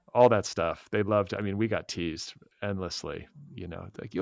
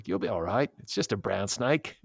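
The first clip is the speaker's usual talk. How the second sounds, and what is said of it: Put-on Australian accent. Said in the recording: “That was a pretty good Australian accent.”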